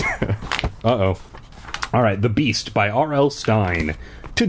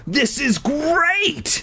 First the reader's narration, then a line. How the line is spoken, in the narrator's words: I screamed